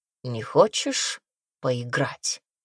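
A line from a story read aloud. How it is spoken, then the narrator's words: Quiet menacing giant question. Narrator (Russian): тихо спросил гигант, и в его тоне прозвучала угроза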